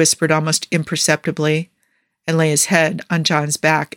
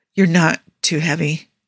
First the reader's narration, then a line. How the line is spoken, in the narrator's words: John said in a strained voice